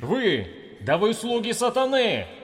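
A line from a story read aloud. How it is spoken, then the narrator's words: Many voices shouting. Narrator (Russian): Кричали французы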